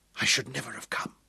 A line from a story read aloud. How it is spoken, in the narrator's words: whispered, her face pressed to his chest